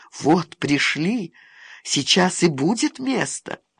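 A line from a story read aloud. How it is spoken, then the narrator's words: Whisper. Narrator (Russian): Таня произнесла шепотом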